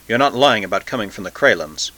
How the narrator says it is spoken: The Taxil said in a low, rapid voice

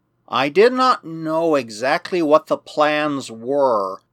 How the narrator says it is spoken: murmured Protexa, and he seemed in a strange confusion

